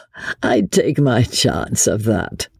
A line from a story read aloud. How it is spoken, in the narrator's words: said Chauvelin, with a dry, rasping little laugh